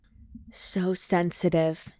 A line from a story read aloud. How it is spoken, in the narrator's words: he murmured